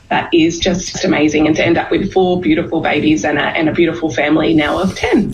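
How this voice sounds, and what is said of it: Australian accent. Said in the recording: “somebody who has a really cool accent. That's an Australian woman”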